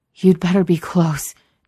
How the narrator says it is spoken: Jared gasps

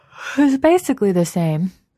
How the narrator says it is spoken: Enid said through a yawn

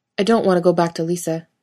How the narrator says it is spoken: he blurts out

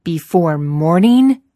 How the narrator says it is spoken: Thorin thunders

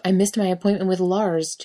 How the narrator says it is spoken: Jensen yells

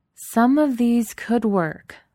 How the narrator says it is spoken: Delgado said slowly

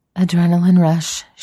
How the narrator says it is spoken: she gasps

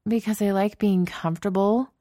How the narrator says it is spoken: Genevieve groans

